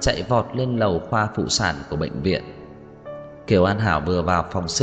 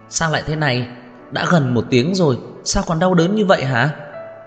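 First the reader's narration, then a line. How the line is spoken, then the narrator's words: Agitated, losing composure. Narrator (Vietnamese): giọng nói mất bình tĩnh của Lục Cẩn Niên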